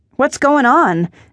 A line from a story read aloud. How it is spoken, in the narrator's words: Ella May shouted over the clamor